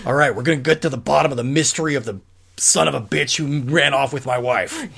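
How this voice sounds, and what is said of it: Imitates another person's voice. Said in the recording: “That's my Harrison Ford impression.”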